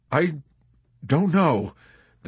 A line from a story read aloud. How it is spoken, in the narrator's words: the chaplain wailed softly in a quavering voice